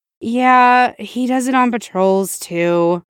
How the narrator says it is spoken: Tim said with a sigh

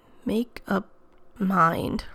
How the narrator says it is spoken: Rodney mumbled

